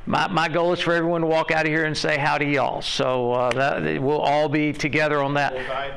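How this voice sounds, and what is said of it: Southern US (Alabama) accent. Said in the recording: “I'm giving you a southeastern slant, so pardon the accent”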